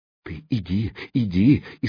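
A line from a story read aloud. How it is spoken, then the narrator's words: Frightened whisper. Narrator (Russian): испуганно зашептала кухарка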